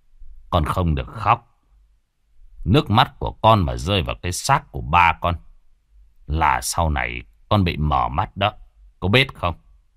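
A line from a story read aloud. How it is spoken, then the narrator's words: Gentle speech. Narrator (Vietnamese): nhẹ nhàng nói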